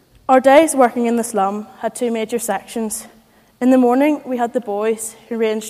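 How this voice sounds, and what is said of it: Strong Belfast accent. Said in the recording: “in a strong Belfast accent”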